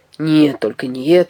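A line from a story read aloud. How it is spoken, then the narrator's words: Grumbling. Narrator (Russian): ворчал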